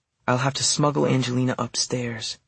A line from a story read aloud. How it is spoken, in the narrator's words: she murmured to herself